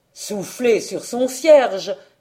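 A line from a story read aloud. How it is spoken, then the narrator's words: Old monk exclaiming promptly. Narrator (French): s'écria aussitôt le vieux moine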